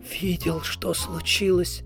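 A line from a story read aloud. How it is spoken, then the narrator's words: Whisper. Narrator (Russian): шепнул Кардинг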